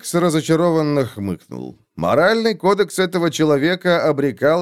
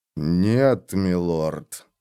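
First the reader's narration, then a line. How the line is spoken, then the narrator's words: Through clenched teeth. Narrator (Russian): процедил фон Вольген сквозь стиснутые зубы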